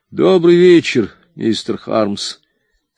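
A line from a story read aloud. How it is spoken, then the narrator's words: Sad voice. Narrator (Russian): сказал он своим печальным голосом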